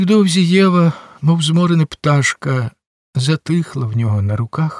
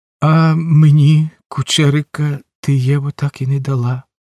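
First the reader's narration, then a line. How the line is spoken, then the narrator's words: Sad, smiling. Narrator (Ukrainian): сумно всміхнувся Сен-Клер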